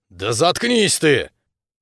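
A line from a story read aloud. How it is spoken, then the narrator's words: Growl. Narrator (Russian): Рыкнул я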